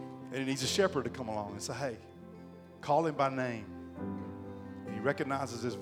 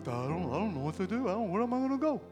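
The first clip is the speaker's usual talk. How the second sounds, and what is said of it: Dopey cartoon sheep voice. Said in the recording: “If a sheep could talk, that's what he'd sound like... my cartoon voice for a sheep”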